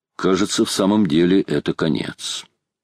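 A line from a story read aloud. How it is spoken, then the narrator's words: Calm steady voice. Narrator (Russian): Майор проговорил своим спокойным голосом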